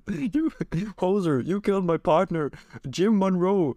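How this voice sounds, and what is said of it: Put-on Canadian accent. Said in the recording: “Canadian FBI ... as an accent ... I'm the other mountie.”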